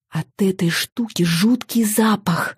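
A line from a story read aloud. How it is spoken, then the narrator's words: Very quiet whisper. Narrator (Russian): как можно тише прошептала я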